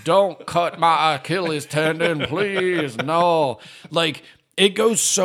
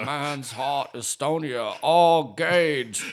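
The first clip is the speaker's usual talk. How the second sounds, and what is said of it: Fred Gwynne's Maine accent impression. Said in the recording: “making fun of Fred Gwynne's main accent”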